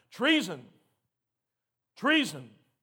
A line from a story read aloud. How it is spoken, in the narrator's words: she tore her clothes in despair and shouted